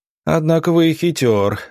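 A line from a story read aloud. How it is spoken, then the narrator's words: Wounded man laughing. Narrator (Russian): рассмеялся раненый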